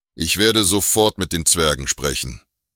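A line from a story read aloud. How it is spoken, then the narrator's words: Plain. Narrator (German): sagte Gaelthin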